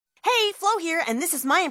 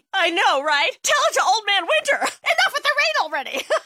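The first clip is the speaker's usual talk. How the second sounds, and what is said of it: Chatty weather-obsessed neighbor voice. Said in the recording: “my impression of your neighbor who really likes to talk about the weather”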